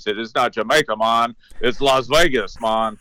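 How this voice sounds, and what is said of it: Imitated Jamaican accent. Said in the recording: “he had a Jamaican accent.”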